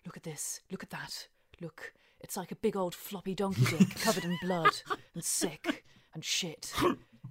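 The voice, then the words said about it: Gordon Ramsay impression. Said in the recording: “do a Gordon Ramsay impression”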